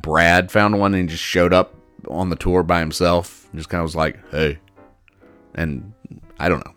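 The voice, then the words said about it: Imitated voice of a made-up guy. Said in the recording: “That's my Brad imitation.”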